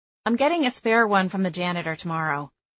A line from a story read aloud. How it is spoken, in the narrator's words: I said quickly